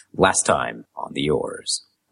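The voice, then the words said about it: Dramatic narrator voice. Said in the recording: “the dramatic voice.”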